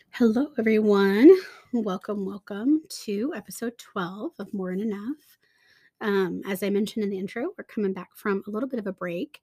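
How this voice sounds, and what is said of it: Sick, congested-sounding voice. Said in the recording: “I am recovering, if you can tell from my voice, from a little bit of an upper respiratory infection”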